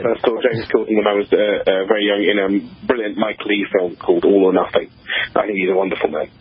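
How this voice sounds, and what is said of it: Charming British-sounding accent. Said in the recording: “you can hear he has an adorable accent. Are you flattered or insulted by comparison with James Corden?”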